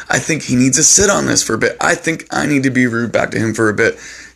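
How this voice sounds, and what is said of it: Sick-sounding voice. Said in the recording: “sorry about my voice. I'm sick.”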